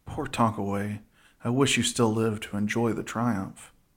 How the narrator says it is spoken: the Texan often muttered to himself

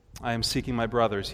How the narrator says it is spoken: he said

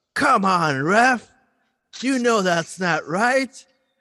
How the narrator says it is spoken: Santi screams out

